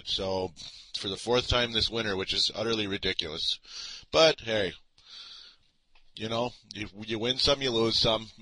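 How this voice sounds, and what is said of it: Voice sounds a little off, unwell. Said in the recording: “my voice sounds a little funny, because once again, I'm not feeling good”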